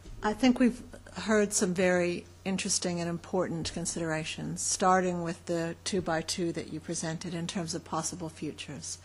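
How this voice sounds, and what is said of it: North American accent. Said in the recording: “I'm very aware of my North American accent”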